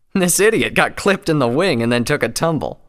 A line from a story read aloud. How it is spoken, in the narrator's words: Scarlet said laughingly